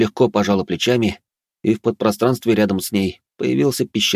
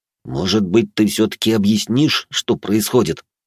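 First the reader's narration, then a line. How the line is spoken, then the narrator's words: Seething, through gritted teeth. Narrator (Russian): Закипая, сквозь зубы процедил я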